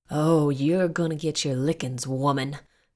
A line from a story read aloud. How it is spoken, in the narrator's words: boy bellowed his voice growing stronger